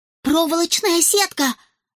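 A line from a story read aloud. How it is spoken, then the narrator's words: Exclaimed. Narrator (Russian): воскликнула Рос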